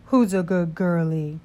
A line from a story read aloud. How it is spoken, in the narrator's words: I said in my dad voice